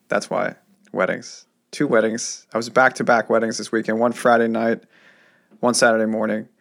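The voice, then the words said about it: Hoarse, worn-out voice. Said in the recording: “My voice is decimated.”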